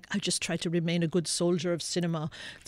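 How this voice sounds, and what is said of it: Poorly imitated foreign accent. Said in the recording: “his way of speaking is so singular... It's a terrible accent.”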